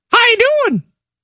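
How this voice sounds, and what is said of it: Mickey Mouse-like cartoon voice. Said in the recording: “Mickey Mouse is Jay Burson to you ... my Jay Burson impersonation ... You've doctored it up over a course of time”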